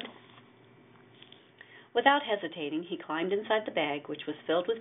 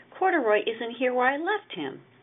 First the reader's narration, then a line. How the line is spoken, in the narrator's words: exclaimed